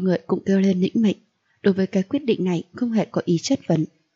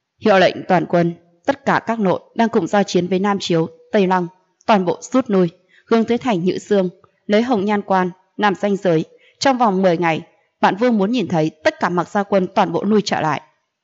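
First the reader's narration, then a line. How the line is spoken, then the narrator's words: Deep, broad, stern. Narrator (Vietnamese): Mặc Tu Nghiêu giọng nói trầm rộng mà nghiêm nghị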